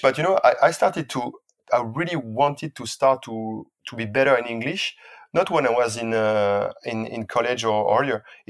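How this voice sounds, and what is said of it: French-accented English. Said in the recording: “I try to speak English with as I can. French accent, I will never get rid of that. I thought one day I would lose it, but no way.”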